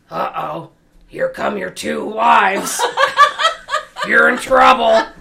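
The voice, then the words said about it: Impression of a friend's voice. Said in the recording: “That's a great impression of Stolly.”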